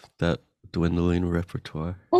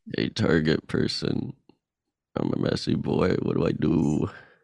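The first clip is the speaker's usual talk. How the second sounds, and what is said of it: Imitates another person's voice. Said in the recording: “doing an impression of you ... It's really good.”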